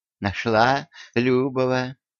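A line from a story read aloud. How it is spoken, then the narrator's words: Gentle old woman asking. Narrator (Russian): ласково спросила старушка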